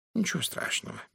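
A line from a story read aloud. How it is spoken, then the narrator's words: Soft reassuring. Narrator (Russian): мягко успокоил меня он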